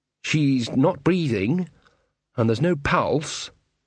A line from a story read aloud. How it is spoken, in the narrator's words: said the wizard